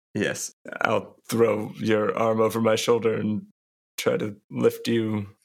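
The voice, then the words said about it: Speaks in a character voice. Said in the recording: “character voice”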